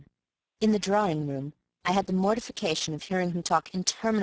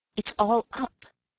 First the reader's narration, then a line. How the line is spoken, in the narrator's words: I gasped